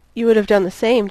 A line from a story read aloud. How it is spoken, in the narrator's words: Jimmy said